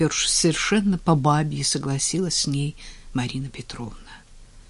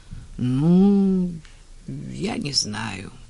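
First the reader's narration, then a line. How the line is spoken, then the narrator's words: Drawling. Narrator (Russian): протянула она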